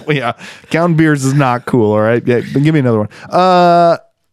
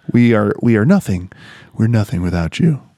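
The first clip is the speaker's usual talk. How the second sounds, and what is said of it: Public radio host voice. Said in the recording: “Put on my best NPR voice ... is Ira Glass in here with me?”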